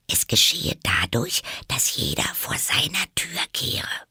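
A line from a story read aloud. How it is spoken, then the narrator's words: Whispering. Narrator (German): flüsterte Alice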